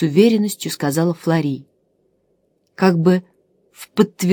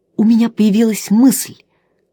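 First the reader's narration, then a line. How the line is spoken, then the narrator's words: Exclaimed. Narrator (Russian): воскликнул Чандос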